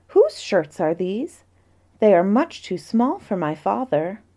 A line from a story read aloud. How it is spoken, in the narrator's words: she exclaimed